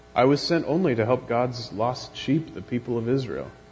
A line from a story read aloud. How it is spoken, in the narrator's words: said